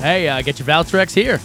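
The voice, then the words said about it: Ballpark vendor hawking voice. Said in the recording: “You sound like a vendor at a ball game.”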